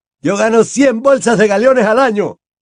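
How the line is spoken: Shout. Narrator (Spanish): gritaba uno de ellos

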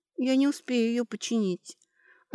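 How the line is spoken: Sad. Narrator (Russian): грустно сказала

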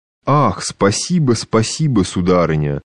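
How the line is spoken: Sweet trembling voice, giggling. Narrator (Russian): заговорил один из них, сладостно разбитым дрожащим голосом, поминутно хихикая

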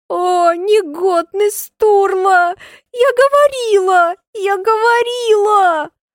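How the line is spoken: Sobbing whisper. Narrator (Russian): Шепчет она, рыдая

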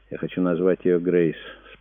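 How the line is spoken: Calm. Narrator (Russian): спокойно произнесла Пилар

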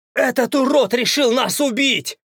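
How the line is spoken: Frightened yell. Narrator (Russian): Испуганно заорал кто-то из игроков

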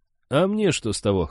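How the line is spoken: Scoffing grunt. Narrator (Russian): хмыкнул Гарт

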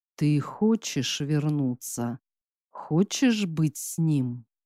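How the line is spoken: Lifeless, flat voice. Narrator (Russian): Спросило безжизненным, ровным голосом

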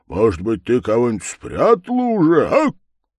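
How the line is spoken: Triumphant laugh. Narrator (Russian): восхищенный таким своим замечанием, Чуб засмеялся, внутренне торжествуя, что он один только пользуется благосклонностью Солохи

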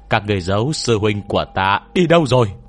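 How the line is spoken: Loud shout. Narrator (Vietnamese): Hòa Thượng Mập Chấp Mê Nguyên liền hét lớn

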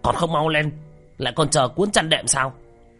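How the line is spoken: Stern shout. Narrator (Vietnamese): Tên mập nghiêm nghị quát lên

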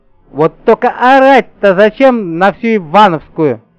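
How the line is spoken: Reproachful shout. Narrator (Russian): укоризненно прикрикнула на меня Баба-Яга

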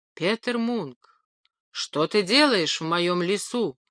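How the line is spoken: Giant's sudden thunderous voice. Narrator (Russian): вдруг сказал великан громовым голосом

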